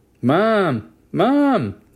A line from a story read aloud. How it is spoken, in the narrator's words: Jesse yelled from the kitchen